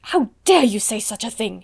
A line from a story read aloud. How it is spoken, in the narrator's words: exclaimed Miss Minchin